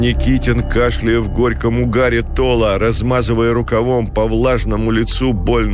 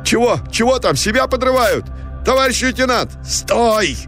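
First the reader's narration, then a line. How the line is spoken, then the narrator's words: Shouting. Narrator (Russian): крикнул Никитин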